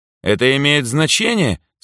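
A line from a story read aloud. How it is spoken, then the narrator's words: Rude, defiant question. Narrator (Russian): с вызовом в глазах грубо поинтересовалась Эльза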